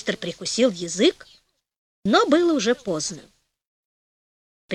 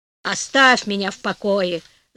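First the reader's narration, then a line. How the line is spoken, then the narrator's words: Grumbling. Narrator (Russian): заворчал муж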